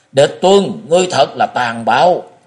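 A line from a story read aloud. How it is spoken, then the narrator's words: Old man's roar. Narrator (Vietnamese): Lão gầm lên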